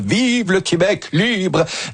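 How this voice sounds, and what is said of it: Mediocre imitation of another person's voice. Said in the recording (French): “Moyenne imitation, mais ouais, l'intention était là. ... On dirait qu'il avait la grippe ce jour-là.”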